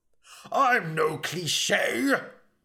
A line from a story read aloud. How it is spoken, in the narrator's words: bellowed Elric